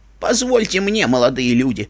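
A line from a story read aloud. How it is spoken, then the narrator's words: Hoarse old voice. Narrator (Russian): послышался хриплый голос, старый жеребец землепони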